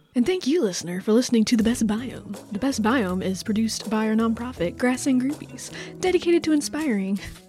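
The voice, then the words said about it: Put-on narrator voice. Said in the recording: “Why did your voice change? ... I was just getting really into that narrator voice.”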